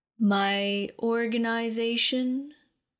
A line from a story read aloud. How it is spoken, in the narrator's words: The dragon's throat rumbled with discontent